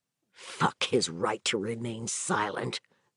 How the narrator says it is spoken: Vic growled

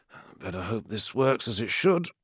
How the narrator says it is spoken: muttered Ashul

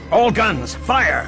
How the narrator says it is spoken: Graf barked again

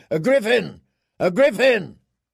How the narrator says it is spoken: The men of the Golden Company shouting

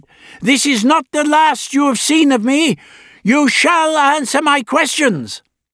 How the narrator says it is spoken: he cried

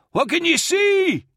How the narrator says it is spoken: Rerval was yelling from the girder behind him

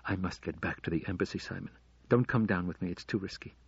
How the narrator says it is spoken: She whispered

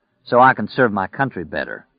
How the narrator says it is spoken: Stu said dryly

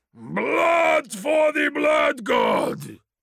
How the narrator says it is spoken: thundered, throwing his arms wide and goading those about him into a frothing madness

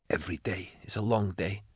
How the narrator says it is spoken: whispered

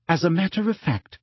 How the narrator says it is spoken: said Hermione sweetly

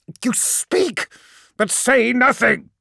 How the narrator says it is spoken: roared Corferon

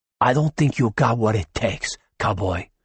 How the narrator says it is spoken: Danny said in a dangerously low tone

